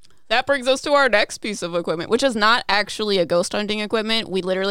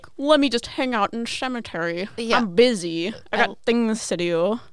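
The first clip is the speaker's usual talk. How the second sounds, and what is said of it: Grinch-like grumpy character voice. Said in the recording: “your Jim Carrey Grinch impression”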